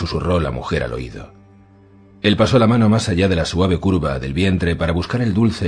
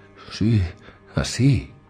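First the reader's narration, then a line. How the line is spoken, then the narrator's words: Murmuring. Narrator (Spanish): murmuró ella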